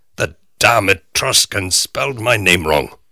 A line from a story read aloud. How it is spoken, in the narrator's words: Max shouts, as though all evidence has led him to her as the problematical source